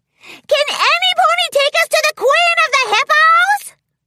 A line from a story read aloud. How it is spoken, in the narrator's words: shouted gleefully